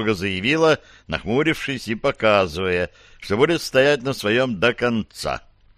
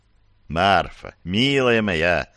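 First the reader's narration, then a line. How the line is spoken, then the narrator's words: Tender coaxing. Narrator (Russian): начал ласково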